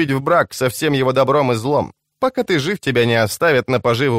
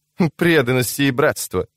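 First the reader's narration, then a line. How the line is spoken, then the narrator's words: Snorted. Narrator (Russian): фыркнула она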